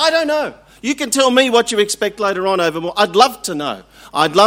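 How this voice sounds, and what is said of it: Usual voice. Nothing is said of it.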